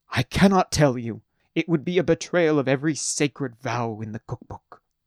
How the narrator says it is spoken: he exclaimed

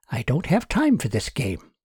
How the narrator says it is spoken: she muttered to herself

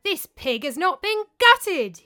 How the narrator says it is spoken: exclaimed

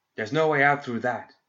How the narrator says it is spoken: Mizaki shouted

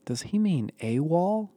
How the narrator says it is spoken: Barrett asked quietly

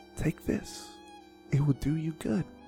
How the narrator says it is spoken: whispering

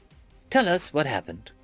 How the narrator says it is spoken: Block said in his most soothing tone

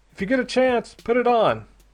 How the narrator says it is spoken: shouted

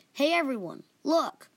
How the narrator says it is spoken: Jahiri, who was still recovering from her pain, called out

